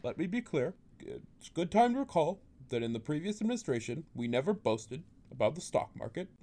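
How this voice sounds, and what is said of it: Obama impression. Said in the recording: “his Obama impression”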